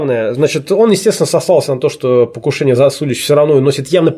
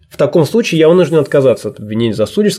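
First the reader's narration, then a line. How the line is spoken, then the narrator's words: Plain. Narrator (Russian): сказал он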